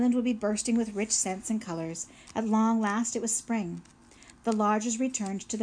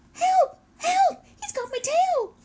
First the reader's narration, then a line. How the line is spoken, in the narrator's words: Paddler was splashing and screaming in the pond